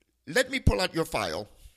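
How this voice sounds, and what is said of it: Imitated heavy Indian accent. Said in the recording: “a man with a very heavy Indian accent ... I'm going to try to duplicate his voice and accent here”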